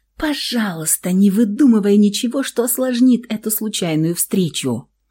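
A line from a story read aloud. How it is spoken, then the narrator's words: Silent inner plea. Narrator (Russian): взмолилась внутренне она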